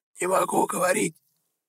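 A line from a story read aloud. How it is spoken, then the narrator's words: Hoarse rasping girl. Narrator (Russian): просипела девушка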